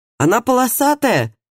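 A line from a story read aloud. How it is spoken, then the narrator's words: Muffled shout from inside. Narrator (Russian): крикнул Матиас изнутри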